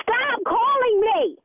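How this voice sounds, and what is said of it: Shouting. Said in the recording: “Stop shouting!”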